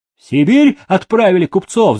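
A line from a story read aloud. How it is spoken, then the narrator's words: Coachmen shouting. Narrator (Russian): закричали ямщики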